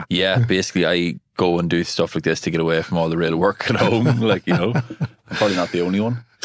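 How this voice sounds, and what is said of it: Irish Monaghan accent. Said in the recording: “the accent thing, you know, straight out of Monaghan City”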